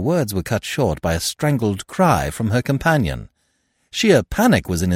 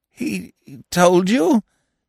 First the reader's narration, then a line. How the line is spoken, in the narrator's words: he stammered